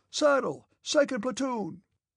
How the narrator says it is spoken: Denisov's voice was heard shouting farther and farther away

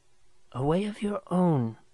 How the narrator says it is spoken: she whispered

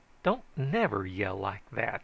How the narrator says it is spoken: I said irritably to Uncle Esau

